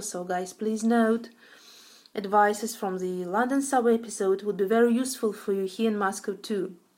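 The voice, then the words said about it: Russian accent. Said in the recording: “Nice Russian accent there”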